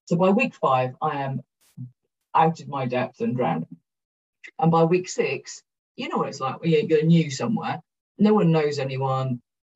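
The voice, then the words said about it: Broad Welsh accent. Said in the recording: “my very broad Welsh accent”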